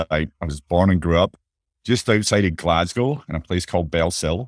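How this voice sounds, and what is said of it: Scottish accent. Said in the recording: “as you may be able to tell a little bit from my accent, I'm from Scotland”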